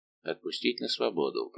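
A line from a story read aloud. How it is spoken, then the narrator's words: Muttering. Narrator (Russian): пробормотал он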